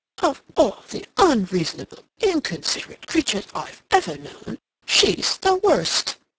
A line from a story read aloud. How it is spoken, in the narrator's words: he exclaimed to himself